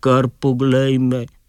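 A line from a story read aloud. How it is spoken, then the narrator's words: Sad scarecrow. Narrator (Slovenian): je žalostno reklo ptičje strašilo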